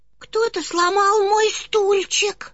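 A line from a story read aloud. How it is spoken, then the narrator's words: Tiny high-pitched cub voice. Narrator (Russian): сказал маленький медвежонок совсем тоненьким голосом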